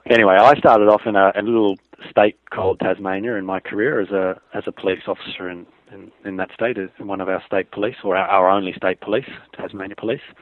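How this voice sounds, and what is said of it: Australian accent. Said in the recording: “I've got a strange accent, so I'm not American. I come from a place called Australia”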